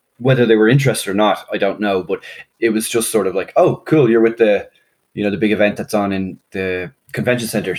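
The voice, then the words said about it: Irish accent. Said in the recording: “they hear an Irish accent and they're like, oh, you're not from around here”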